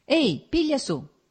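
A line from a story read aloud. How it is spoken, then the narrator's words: Shouted. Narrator (Italian): gridò al tartaro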